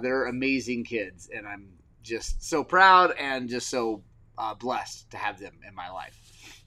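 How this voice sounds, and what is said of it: Emotional, choked-up voice. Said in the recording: “little choked up”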